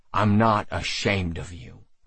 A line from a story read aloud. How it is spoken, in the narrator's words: I said firmly